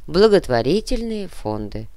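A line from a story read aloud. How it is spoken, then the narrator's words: Plain. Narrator (Russian): ответил наемник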